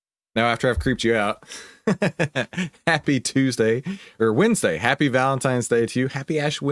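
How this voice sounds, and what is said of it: Usual voice. Nothing is said of it.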